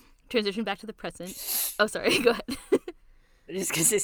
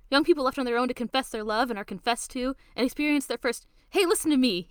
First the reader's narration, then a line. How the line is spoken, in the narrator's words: he shouts